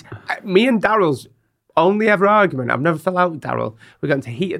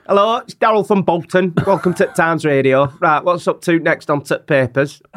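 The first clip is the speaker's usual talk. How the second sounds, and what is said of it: Overly broad Bolton radio-presenter impression. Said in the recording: “I was going to do a impression of Daryl then. ... It's basically me, isn't it? ... he's not that broad.”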